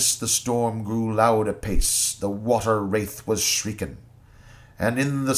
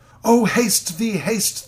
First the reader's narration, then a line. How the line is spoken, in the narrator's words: the lady cries